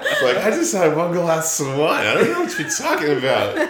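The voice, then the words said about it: Imitates a very drunk young woman. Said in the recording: “That's a really good impression of white girl wasted.”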